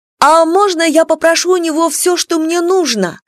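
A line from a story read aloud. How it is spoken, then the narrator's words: Shouting. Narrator (Russian): кричала она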